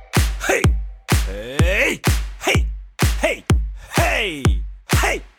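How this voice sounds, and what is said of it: Shouting loudly. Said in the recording (German): “Schrei nicht so.”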